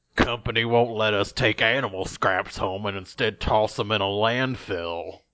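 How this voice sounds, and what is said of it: Put-on voice of a news suspect. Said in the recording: “let me do his... let me do the voice for him”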